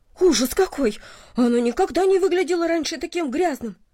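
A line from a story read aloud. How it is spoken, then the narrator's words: Exclaiming. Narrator (Russian): она воскликнула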